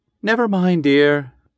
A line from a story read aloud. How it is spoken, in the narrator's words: said his wife, soothingly